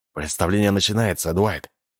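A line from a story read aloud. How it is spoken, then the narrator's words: Muttered. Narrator (Russian): Анджело пробормотал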